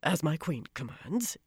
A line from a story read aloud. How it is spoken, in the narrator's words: in a hoarse voice